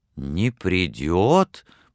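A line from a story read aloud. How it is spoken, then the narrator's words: Dejected, sinking voice. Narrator (Russian): повторил Боб Крэтчет упавшим голосом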